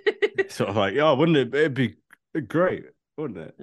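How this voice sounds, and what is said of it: Drunken-sounding impression. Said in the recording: “That's someone who's been on an alcohol binge for a week sending that take in... That was my impression.”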